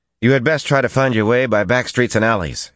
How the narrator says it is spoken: said, raising his voice so they could hear over the cacophony

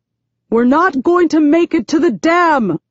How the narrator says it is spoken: he yells

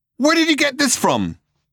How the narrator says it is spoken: he yelled

